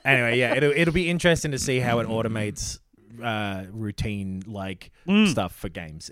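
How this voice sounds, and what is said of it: Australian accent. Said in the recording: “Australian is like the worst accent”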